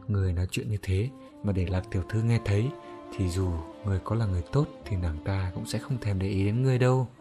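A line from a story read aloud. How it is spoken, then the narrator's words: Soft amused laugh. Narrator (Vietnamese): Đồng Sào Sào nghe hắn nói thú vị như thế, duyên dáng cười khẽ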